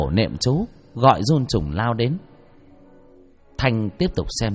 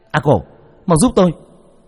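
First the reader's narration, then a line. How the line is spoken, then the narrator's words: Shouting. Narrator (Vietnamese): Thanh hét lên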